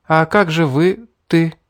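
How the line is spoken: Uncertain question. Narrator (Russian): неуверенно спросила Селина

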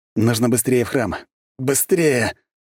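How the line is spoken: Hoarse wheeze. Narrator (Russian): прохрипел я

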